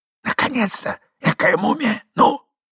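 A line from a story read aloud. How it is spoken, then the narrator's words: Impatient young man's whisper. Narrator (Russian): прошептал молодой человек, мысленно погоняя забывчивого старичка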